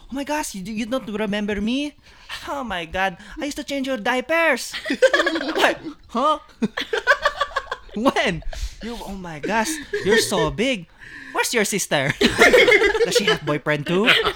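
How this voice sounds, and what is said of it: Put-on Filipino aunt accent. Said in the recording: “in an accent I can barely understand”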